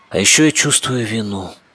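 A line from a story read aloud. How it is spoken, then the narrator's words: Muffled, breathy. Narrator (Russian): сказала она глухо, почти на выдохе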